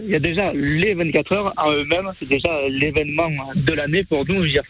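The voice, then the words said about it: Southern French accent. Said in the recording (French): “on reconnaît un peu ton accent du Sud”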